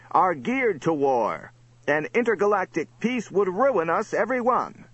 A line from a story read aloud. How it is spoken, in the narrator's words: another cried